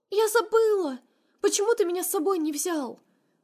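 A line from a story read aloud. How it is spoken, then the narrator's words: Hurt sobbing. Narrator (Russian): Всхлипывает обиженно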